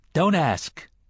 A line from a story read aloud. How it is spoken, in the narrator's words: the man in black said sharply